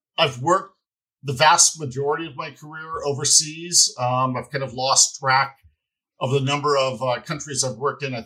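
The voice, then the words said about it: American accent. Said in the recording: “back in the US, where I'm originally from, as you can tell from the accent”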